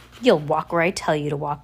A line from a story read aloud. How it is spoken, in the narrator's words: Olaf growled